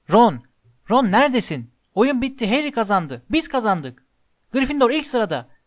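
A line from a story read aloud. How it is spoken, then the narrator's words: Shouting. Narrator (Turkish): diye bağırdı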